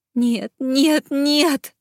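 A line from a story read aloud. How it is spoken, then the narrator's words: Sobbing. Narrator (Russian): зарыдала Женевьев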